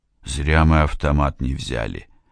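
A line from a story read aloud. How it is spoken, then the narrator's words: Sighing. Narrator (Russian): вздохнул он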